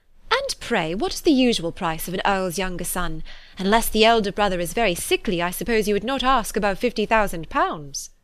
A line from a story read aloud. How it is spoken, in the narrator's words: said in a lively tone